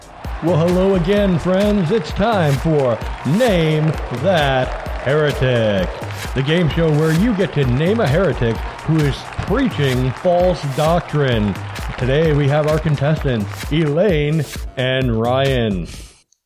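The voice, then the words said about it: Game show announcer voice. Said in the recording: “I'm just the announcer voice.”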